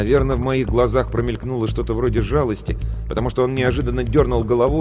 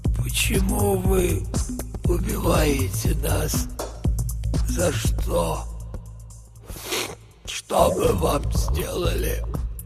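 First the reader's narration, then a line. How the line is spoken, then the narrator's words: Old man whispering. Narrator (Russian): Старик шептал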